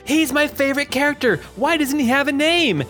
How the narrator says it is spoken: somebody yell out, they yell out

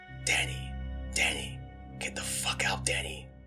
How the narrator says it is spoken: whispers

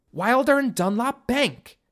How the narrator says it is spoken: Katie exclaimed

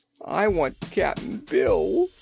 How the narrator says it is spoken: wailed the girl

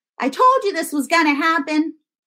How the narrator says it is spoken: Mom would scream at him

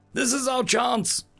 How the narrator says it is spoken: shouted in unison

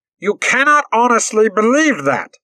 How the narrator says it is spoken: they shouted

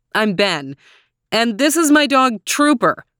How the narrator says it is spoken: said loudly

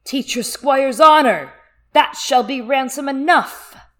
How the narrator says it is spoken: the Knight of the Laughing Tree spoke in a booming voice through his helm, saying

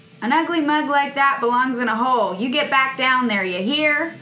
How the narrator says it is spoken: So I'm gonna yell

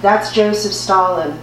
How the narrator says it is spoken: she said

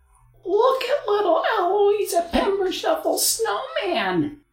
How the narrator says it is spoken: the other children cackled

